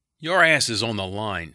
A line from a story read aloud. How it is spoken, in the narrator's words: Skank roared